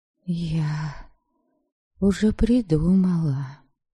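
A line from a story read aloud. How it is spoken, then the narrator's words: Barely audible confession. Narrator (Russian): чуть слышно призналась я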